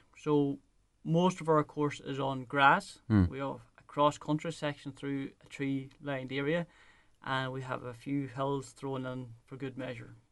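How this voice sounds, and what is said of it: Smooth Donegal Irish accent. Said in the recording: “your silky smooth, wonderful Donegal accent”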